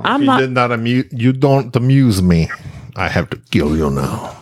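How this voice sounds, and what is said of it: Put-on Russian-style accent. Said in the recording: “That's like kind of a Russian accent. ... That wasn't Russian. That's like a czar has Italian.”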